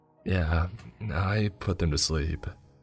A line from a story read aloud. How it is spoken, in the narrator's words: said in an exhausted tone